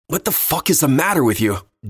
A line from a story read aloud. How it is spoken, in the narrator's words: Dean shouted, not caring if he woke his neighbors